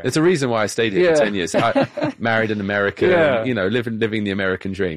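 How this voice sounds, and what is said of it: British accent. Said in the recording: “it's my British accent that makes me sound more ... our guest has a British accent”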